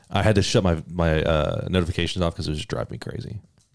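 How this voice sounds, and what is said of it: Smooth radio voice. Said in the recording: “you have an amazing radio voice ... damn, that sounds smooth”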